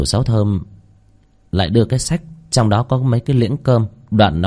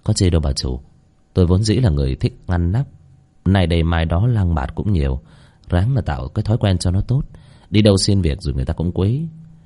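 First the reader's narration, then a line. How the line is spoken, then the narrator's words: Smiling. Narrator (Vietnamese): Bác Cổ chỉ mỉm cười nói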